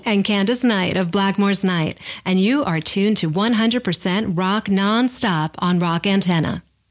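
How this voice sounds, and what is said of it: Radio DJ voice. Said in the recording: “Was that like a DJ voice thing going? ... Yeah, that was your DJ voice.”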